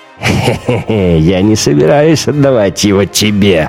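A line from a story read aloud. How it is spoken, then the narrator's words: Laughing. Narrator (Russian): рассмеялся Штайнер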